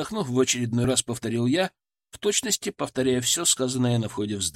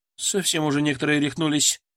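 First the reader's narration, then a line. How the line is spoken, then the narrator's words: Woman grumbling. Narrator (Russian): проворчала женщина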